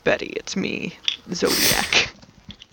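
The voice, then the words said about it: Raspy disguised character voice. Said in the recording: “My voice is a little raspy”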